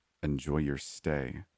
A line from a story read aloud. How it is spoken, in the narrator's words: I said under my breath